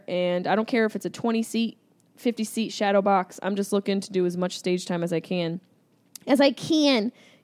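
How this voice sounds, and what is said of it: Syracuse accent. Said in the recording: “You hear my Syracuse accent coming out there.”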